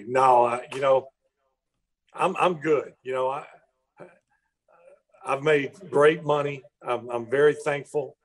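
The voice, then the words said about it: Country accent. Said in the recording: “my country accent”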